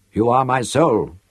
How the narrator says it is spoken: said gently

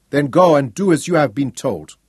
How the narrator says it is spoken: Cheng ordered sharply

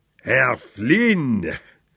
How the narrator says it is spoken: he said, and chuckled

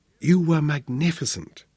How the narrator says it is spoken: she whispered

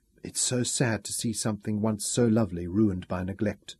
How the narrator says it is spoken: Isabella whispered

